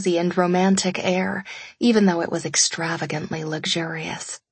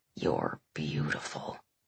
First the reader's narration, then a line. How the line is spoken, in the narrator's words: he whispered